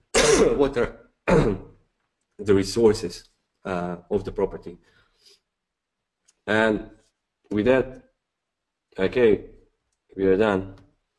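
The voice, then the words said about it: Strained, nearly lost voice. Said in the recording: “I almost lost my voice”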